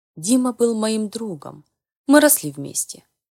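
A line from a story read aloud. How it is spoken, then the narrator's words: Sighing. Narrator (Russian): вздохнул Марк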